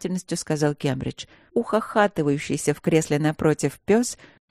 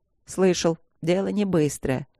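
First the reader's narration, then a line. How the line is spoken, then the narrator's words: Dog's snort. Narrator (Russian): хмыкнул пес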